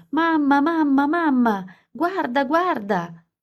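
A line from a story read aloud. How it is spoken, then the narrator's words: Constant screaming. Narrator (Italian): Passavo le giornate urlando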